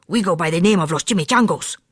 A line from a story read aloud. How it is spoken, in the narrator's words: growled Don Diego, the biggest of the small ones